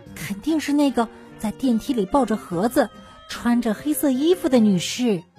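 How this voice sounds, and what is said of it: Quiet whispered voice. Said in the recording (Chinese): “奥尔唐斯小声说道”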